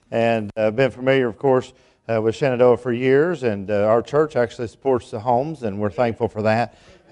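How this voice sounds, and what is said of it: East Tennessee accent. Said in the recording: “I grew up in East Tennessee. You'll be able to figure that out by my accent.”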